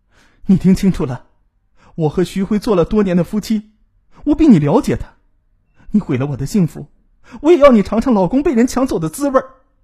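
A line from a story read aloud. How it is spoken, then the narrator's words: Furious roar. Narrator (Chinese): 冯雅丽被彻底激怒了 吼道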